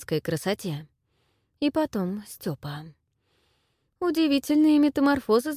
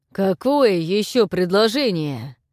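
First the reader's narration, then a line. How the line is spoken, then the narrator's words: Growled. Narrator (Russian): прорычал буквально он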